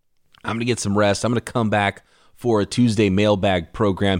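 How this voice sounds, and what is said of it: Hoarse, fading voice. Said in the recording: “I'm losing my voice. My cough that's been going on for like 2 weeks now”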